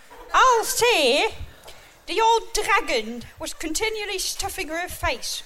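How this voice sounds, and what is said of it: Unconvincing put-on German accent, West Country. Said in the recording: “And what sort of German accent's that? ... You sound like you come from Cornwall, Bristol.”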